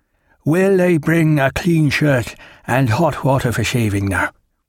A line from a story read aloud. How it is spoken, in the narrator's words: considered